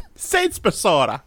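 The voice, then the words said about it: Put-on Irish accent. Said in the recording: “give me your best Irish accent”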